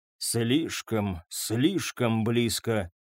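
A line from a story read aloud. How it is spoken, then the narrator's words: Quiet repetition. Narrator (Russian): тихо повторил он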